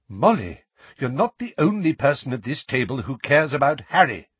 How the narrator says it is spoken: said Lupin sharply

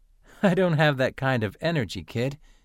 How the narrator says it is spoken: Atherin said, chuckling

